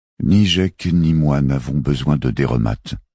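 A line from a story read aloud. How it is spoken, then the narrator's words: Plain. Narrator (French): dit Chari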